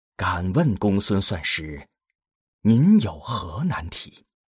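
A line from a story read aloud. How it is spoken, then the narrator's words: Hesitant low voice. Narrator (Chinese): 荀音略一迟疑，低声道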